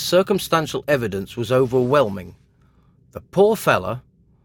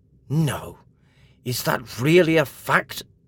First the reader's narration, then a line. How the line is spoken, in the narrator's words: exclaimed Mr